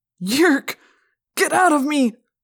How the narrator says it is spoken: he cried

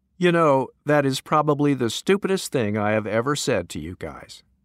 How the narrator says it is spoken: my friend burst out laughing and said

